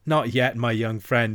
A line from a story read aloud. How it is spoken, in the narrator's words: he said